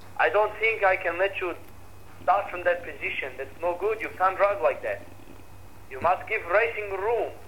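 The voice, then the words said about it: Put-on Czech accent. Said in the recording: “in his Czech accent.”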